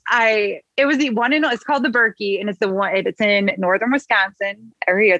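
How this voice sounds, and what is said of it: Midwestern American accent. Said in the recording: “there goes my accent ... good old Midwest”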